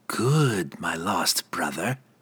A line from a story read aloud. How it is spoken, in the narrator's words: Verna purred